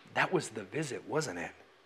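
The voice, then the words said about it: Low, quiet voice. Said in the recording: “in a low voice”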